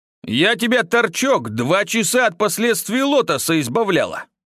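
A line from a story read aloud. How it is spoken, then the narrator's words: Girl barking angrily. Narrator (Russian): рявкнула девушка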